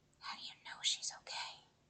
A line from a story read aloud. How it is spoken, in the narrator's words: Seth whispered